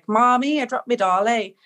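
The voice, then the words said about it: Strong Northern Irish accent imitation. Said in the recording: “I had a very strong Irish accent.”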